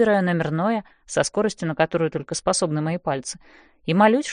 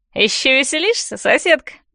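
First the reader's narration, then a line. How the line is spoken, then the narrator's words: Drunken giggle. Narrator (Russian): Она пьяно хихикает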